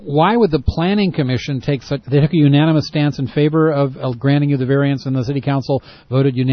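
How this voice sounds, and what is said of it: Usual voice. Nothing is said of it.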